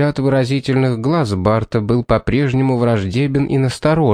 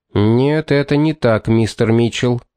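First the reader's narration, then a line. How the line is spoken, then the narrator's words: Sharp insincere reply. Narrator (Russian): резко ответил Пит, хотя и не совсем искренно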